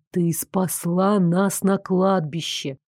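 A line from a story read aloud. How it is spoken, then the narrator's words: Quiet reminder. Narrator (Russian): негромко напомнил Дарек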